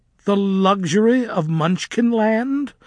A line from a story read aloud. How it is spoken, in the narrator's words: Melina's voice was screechy